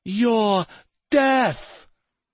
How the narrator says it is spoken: she screamed in reply

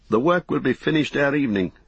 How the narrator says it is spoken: said Ingold

